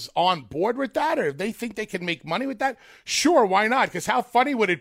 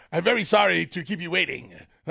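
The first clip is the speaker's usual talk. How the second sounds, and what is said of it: Imitates another person's voice. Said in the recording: “I don't know what accent this is, but this is my Rusev”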